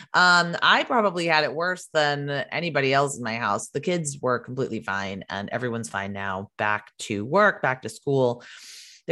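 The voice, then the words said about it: Congested voice with a cold. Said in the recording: “You can probably hear in my voice, I have a little bit of a cold.”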